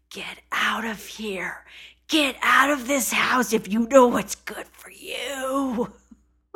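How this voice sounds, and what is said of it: Spooky whispering horror-movie voice. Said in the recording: “His whispering at the end kind of spooked me out ... reminded me of a scary movie ... scary voice”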